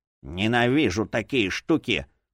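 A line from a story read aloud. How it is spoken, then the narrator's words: Grumbling. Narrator (Russian): проворчал один другому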